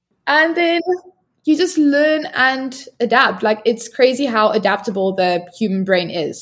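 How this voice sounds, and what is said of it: South African English accent. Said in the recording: “I'm sounding, I guess, more South African at this point, hopefully. ... You do.”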